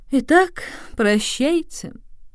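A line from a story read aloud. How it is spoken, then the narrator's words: Involuntary sigh. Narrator (Russian): невольно вздохнул сеньор Мультеня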